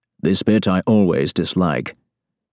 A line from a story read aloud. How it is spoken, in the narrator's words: he adds in a low monotone, his face set in a grim expression of disapproval